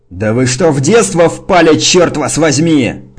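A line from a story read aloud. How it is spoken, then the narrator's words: Roaring over noise. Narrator (Russian): проревел Сердженнер, перекрикивая шум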